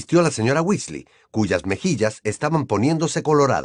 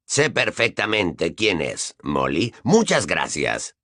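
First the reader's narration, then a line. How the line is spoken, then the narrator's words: Icy cold tone. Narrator (Spanish): dijo Sirius en un tono gélido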